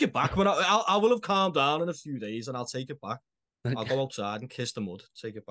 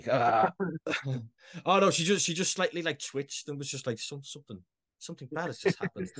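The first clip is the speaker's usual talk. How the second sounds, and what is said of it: Imitates another person's voice. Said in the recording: “doing a Greta Thunberg impression ... voice, but slightly more eloquent”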